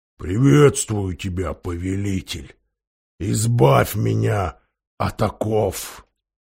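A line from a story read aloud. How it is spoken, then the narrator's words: Deep bass voice. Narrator (Russian): Голова пробасила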